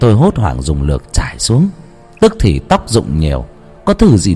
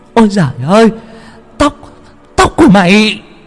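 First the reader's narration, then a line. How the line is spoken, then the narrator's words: Shocked shriek. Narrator (Vietnamese): Khi nhìn thấy mẹ thì bà rú lên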